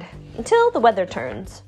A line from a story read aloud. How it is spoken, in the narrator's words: chirped the bird